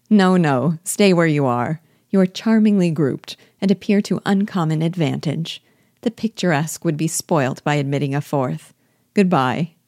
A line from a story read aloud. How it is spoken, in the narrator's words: Elizabeth laughingly answered